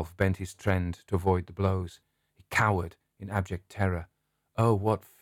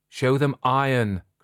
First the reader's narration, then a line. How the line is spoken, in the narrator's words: cried the shadow in an English voice